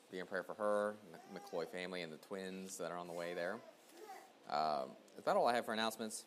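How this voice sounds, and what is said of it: Strained, worsening voice. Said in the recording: “My voice is getting worse, I think, as the day is going on”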